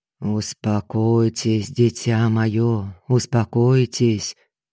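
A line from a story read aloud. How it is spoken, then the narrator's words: Monotone priestly urging. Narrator (Russian): Монотонным тоном увещевал святой отец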